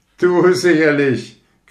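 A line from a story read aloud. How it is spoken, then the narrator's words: Shrieking. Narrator (German): kreischte das bengalische Licht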